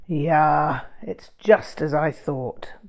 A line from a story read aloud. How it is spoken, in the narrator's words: grumbled Poutrel